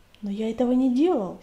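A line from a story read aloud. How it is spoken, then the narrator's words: Frightened shout. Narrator (Russian): испуганно крикнул он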